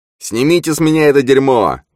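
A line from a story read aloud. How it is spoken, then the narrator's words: Yelling. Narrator (Russian): вопил тот, что лежал на земле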